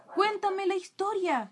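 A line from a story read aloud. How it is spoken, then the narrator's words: Enthusiastic exclamation. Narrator (Spanish): exclamó Lincoln con gran entusiasmo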